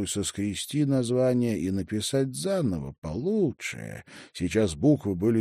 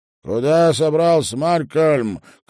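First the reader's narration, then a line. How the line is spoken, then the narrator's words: Shouted. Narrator (Russian): крикнул он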